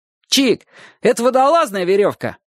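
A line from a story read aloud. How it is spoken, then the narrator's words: Boy shouting. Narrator (Russian): крикнул ему знакомый пацан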